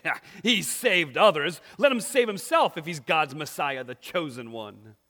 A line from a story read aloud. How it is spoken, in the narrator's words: the rulers were even sneering at him, saying